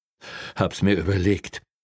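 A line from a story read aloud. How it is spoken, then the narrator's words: Breathless but firm. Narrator (German): sagte atemlos, aber bestimmt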